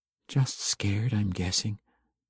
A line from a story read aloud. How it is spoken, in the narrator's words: she replied quietly